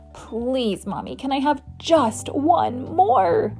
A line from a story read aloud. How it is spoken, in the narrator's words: begged when I woke up from my nap